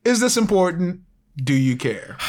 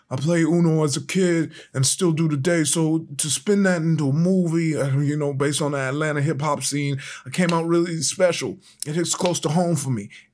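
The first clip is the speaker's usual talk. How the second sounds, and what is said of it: Imitates another person's voice. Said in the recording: “my best Yachty impersonation... kudos on that impression”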